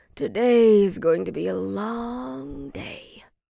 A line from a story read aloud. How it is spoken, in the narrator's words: he mumbled